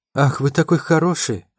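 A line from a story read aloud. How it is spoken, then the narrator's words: Sighing woman. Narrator (Russian): вздохнула его собеседница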